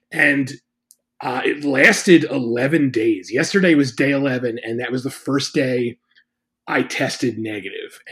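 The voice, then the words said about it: Slightly congested, cold-affected voice. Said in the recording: “I still feel like I have like a little bit of a cold. You can probably hear it in my voice”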